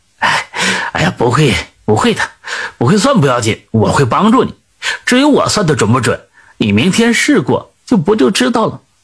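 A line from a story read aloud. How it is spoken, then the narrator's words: Old man laughing. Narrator (Chinese): 老头就笑了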